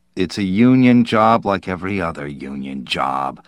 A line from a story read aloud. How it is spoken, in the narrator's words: the official answered wearily